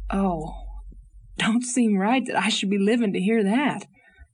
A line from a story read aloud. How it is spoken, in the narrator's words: sighed Captain Jim